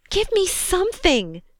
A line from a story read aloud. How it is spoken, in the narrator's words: Joni shrieked